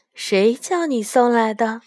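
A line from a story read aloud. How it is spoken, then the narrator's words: Plain. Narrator (Chinese): 雪雁说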